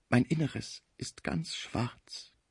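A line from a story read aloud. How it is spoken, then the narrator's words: Heartbreaking voice. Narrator (German): sagte der arme Deutsche mit herzzerreißender Stimme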